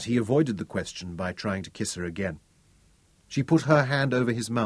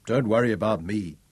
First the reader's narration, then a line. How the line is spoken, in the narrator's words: chuckled fondly